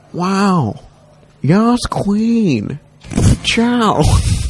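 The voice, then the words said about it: Imitates another person's voice. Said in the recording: “my impression of... Owen Wilson”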